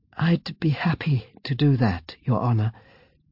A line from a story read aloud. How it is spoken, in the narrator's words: said Fiona meekly